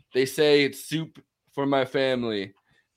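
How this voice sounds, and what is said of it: Donald Trump impression. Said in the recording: “great Trump impression”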